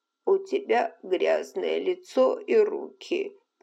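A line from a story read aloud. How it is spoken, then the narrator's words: Weak grumble. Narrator (Russian): проворчала она слабым голосом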